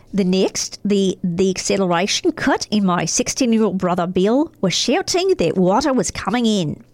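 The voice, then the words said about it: Put-on Australian accent. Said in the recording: “Okay, so now we're in Australia. ... I don't know where the accent is, but I'm waiting.”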